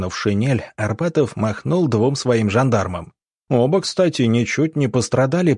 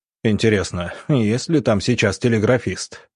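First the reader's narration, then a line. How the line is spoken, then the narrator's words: Quiet, with a snort. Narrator (Russian): хмыкнув, негромко промолвил Иван Павлович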